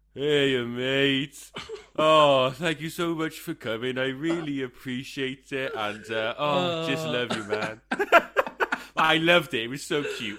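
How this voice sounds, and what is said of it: Impersonation of a friend's voice message. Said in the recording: “I'm going to do an impersonation, right? I'm going to try my best.”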